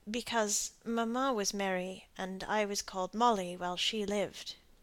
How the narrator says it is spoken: said Molly, lowering her voice

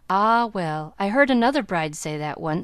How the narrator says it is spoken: sighed Miss Cornelia

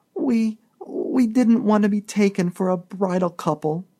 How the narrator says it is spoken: sobbed Mrs

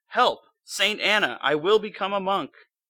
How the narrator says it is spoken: he was terrified of death and divine judgment, he cried out

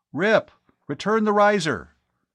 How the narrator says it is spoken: he spoke urgently into the throat mic of his helmet comm

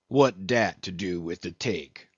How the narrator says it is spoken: said the old black testily

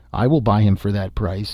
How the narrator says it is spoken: an old and evil-visaged man called out and said

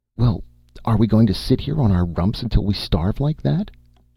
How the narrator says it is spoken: she cried furiously

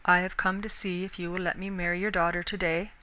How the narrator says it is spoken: he said quietly

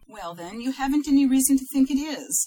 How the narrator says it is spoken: said Lily triumphantly

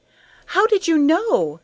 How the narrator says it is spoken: she cried

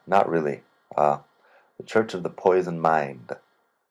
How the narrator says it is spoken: Dylan laughingly replied

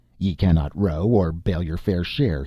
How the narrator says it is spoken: he growled

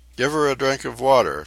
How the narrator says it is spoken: Tefara commanded in a shaking voice

